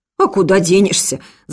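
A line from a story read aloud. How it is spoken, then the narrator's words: Laughing. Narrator (Russian): засмеялся штабс-капитан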